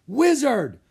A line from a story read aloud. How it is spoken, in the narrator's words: the king said in his loud voice